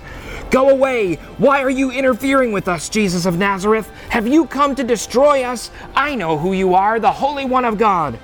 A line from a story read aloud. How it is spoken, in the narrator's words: a man possessed by a demon, an evil spirit, began shouting